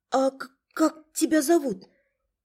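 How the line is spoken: Almost soundless whisper. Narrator (Russian): прошептала вопрос почти беззвучно

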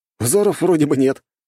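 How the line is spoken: Male snort. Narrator (Russian): хмыкнул Нарышкин

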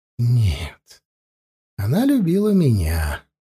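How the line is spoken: Soft. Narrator (Russian): мягко сказал Зарни

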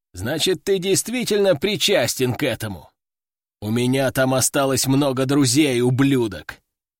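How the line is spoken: Angry growl. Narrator (Russian): прорычал он

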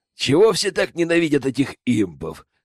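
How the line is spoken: Chuckling. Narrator (Russian): хохотнул Зак

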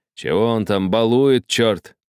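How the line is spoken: Grumbling. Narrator (Russian): проворчал кучер

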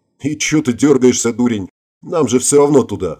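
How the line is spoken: Scoffing grunt. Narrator (Russian): хмыкнул Ингвар

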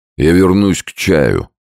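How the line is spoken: Plain. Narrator (Russian): сказал Сомс

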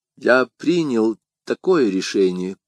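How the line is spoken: Pleasant, gentle voice. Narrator (Russian): отвечал Арамис самым приятным, нежным голосом

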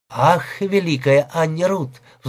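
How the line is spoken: Sigh. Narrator (Russian): вздохнул

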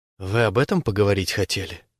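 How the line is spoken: Barely audible babbling. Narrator (Russian): лепечет еле слышно

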